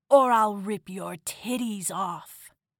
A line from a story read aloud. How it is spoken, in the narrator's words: he growled